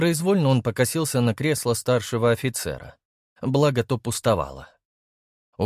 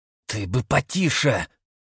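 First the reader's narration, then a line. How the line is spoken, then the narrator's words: Hissed. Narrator (Russian): прошипел Дмитрий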